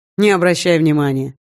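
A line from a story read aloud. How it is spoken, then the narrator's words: Dismissive snort. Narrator (Russian): хмыкнул Эйдигер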